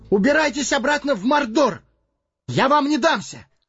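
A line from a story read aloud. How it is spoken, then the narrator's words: Hobbit's exhausted cry. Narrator (Russian): Собрав последние силы, хоббит крикнул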